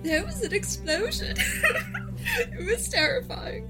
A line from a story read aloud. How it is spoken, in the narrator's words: she would just start like sobbing and be like